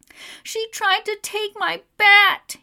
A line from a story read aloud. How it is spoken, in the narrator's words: he wails